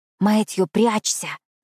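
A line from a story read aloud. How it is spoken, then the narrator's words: Fearful whisper. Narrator (Russian): прошептала я, решив почему-то, что нас кто-то услышит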